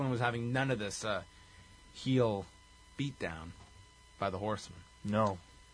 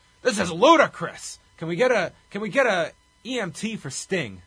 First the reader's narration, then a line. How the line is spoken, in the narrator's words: He yelled